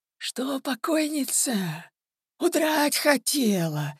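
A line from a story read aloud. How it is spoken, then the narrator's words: Hoarse distant shout, old man. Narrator (Russian): еще издалека хрипло крикнул старик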